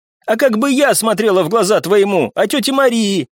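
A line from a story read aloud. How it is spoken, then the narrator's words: Tearful shout. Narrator (Russian): прокричала Вика, и по ее щекам вновь покатились крупные слезы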